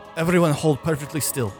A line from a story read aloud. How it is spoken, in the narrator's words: Drakir shouts